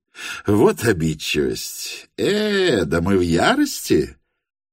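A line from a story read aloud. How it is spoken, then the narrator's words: Clipped, haughty. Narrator (Russian): отчеканил он все тем же видом обидного высокомерия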